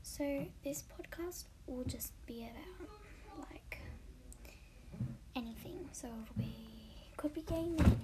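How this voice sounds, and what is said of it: Australian accent. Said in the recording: “I'm Australian, as you can tell probably from the accent.”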